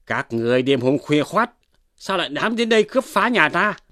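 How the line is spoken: Shouted question. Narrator (Vietnamese): quát hỏi

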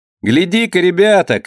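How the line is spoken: Shout. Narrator (Russian): крикнул Рычка

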